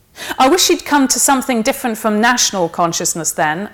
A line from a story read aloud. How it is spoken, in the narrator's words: said Birkin